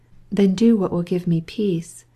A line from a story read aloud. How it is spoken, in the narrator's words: murmured